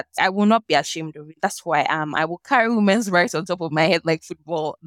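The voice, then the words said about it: Nigerian accent. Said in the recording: “Nigerian woman ... with my Nigerian accent.”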